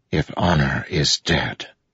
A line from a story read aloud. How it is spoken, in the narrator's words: Kaladin whispered